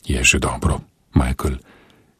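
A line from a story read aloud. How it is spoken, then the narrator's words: Gentle reply. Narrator (Slovenian): je nežno odvrnil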